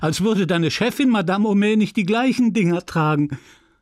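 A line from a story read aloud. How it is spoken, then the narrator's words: Laughing. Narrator (German): lachte Félicité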